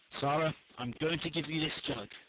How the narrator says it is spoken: she said solemnly

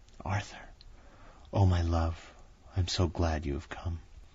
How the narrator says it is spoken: she whispered softly

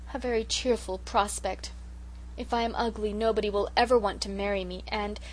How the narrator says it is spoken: poor Sarah sighed

